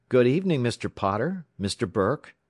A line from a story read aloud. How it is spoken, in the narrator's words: said